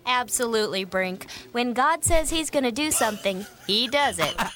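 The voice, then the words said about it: Chill announcer-style voice. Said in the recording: “announcer voice ... It's very chill ... She's excited about it.”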